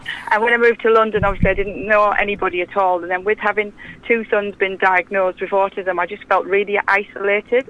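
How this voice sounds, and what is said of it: Middlesbrough accent. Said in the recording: “you probably picked up my accents from Middlesbrough”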